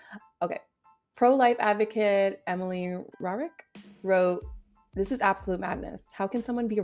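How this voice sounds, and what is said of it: Usual voice. Nothing is said of it.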